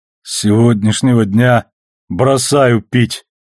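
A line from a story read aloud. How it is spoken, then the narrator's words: Groaning. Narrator (Russian): простонал Амос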